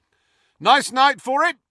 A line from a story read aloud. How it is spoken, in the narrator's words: Fred shouted, elated and terrified in equal measure